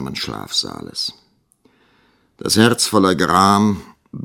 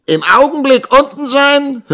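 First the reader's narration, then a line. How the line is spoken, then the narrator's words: Sneering. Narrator (German): höhnte Squeers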